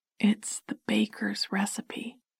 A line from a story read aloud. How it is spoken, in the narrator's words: she whispered